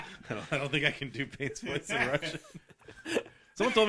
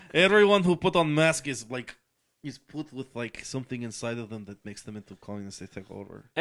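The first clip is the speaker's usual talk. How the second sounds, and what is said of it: Bad put-on Russian accent. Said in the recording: “I had a terrible Russian accent ... I am trying so hard to be Russian ... your accent is horrible ... It's terrible”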